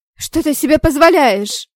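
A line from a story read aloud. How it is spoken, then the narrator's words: Pained indignant scream. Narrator (Russian): завопила от боли и возмущения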